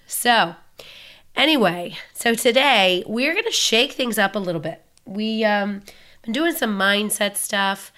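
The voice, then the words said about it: Raspy voice. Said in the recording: “I get this giant cold ... my lovely raspy voice”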